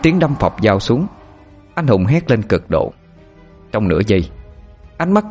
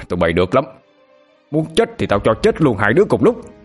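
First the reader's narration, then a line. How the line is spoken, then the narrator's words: Furious roar. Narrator (Vietnamese): Minh Tiến gầm lên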